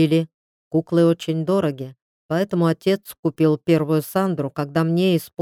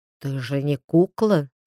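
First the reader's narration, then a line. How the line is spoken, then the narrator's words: Man's whisper in ear. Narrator (Russian): шепнул ей мужчина, щекоча губами чувствительный краешек уха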